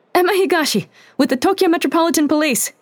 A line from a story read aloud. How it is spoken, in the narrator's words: She yelled